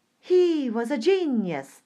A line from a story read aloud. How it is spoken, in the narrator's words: they cried